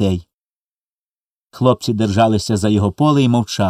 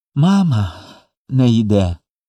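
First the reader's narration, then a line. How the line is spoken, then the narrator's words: Speech then sob. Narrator (Ukrainian): промовив Коля і схлипнув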